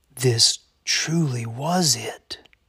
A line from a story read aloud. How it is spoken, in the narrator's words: whispered